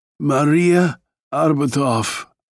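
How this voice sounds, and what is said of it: Weak voice. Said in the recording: “in a weak voice”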